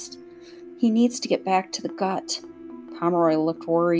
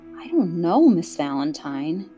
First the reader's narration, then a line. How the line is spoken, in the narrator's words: he sighed